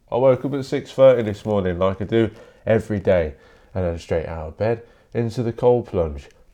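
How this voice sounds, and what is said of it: Nasal, congested voice. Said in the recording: “I sound a bit nasally today. I'm a bit cold”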